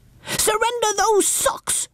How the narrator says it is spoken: yelled Baby Bumble

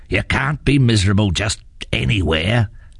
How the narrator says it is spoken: growled his father

